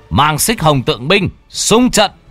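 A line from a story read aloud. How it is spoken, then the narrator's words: Howling roars. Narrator (Vietnamese): những tiếng gào rú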